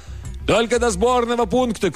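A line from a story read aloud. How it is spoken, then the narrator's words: Shouted reply. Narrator (Russian): крикнул в ответ профессор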